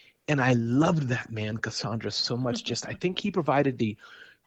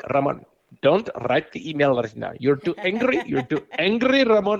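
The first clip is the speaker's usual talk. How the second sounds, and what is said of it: Imitated Indian accent. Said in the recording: “Indian accent ... So I'm mimicking him ... that's how he sounded to me”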